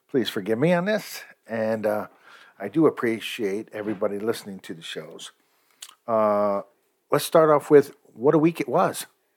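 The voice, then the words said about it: Slightly rough voice. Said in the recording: “I sound a little bit rough today ... I sound a little rough”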